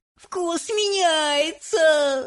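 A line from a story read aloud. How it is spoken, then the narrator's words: Shouting while chewing, smiling. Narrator (Russian): закричала Виолетта, одновременно жуя и улыбаясь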